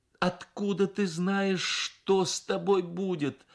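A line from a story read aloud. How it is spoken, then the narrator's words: Mother, then sobbing. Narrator (Russian): сказала мать и разрыдалась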